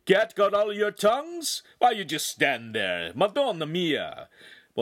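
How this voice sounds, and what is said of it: Heavy Italian accent. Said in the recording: “he spoke with a heavy Italian accent and added in the occasional Italian word or phrase”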